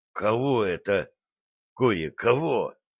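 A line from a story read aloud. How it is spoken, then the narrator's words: Suddenly hoarse question. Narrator (Russian): враз севшим голосом спросил Братский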